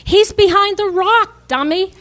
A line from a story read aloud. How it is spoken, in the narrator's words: he yelled